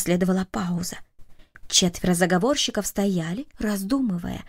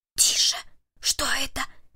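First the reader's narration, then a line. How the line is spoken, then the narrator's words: Whispered. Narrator (Russian): прошептал Перри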